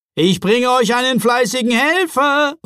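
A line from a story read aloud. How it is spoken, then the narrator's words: Cheerful call. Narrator (German): rief er vergnügt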